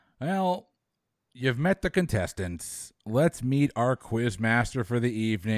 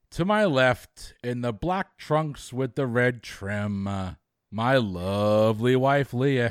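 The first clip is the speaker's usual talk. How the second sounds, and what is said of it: Imitates another person's voice. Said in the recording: “my best Michael Buffer impression. It just didn't work.”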